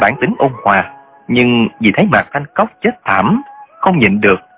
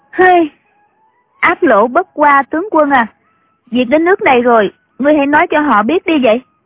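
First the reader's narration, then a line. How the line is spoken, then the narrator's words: Sighing. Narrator (Vietnamese): Triệu Mẫn thở dài nói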